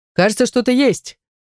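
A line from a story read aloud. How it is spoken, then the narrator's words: Shouted. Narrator (Russian): крикнул наш раскопщик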